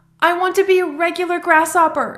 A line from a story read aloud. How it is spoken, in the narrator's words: said Jem, sobbing